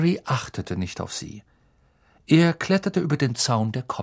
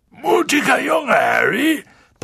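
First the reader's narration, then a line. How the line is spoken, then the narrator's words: Boomed gruffly. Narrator (German): polterte Hagrid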